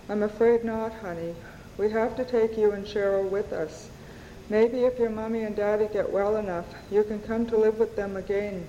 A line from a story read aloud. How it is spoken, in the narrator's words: Gray said in a gentle voice